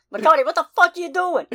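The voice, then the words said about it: Put-on Boston accent. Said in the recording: “You didn't do it with a Boston accent, though.”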